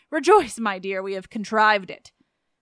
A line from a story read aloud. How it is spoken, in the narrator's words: the officious old nurse cried out